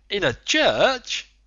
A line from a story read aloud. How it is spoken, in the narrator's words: the Canadian exclaimed